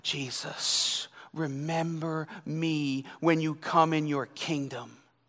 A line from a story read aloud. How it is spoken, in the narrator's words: he cried